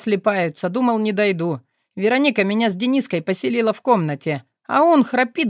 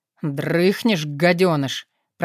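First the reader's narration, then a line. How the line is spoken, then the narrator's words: Young man hissing. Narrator (Russian): прошипел парень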